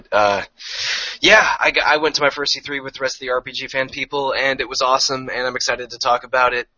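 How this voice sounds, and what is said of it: Sick, rougher-sounding voice. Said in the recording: “I have a little bit of the nerd plague going, which is why my voice isn't quite as sultry as usual.”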